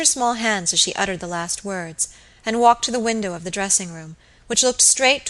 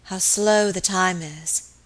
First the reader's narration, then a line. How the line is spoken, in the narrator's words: she said wearily